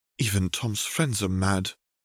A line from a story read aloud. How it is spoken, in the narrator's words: muttered Cecilia